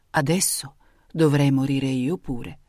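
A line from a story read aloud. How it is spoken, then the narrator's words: Murmuring. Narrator (Italian): mormorava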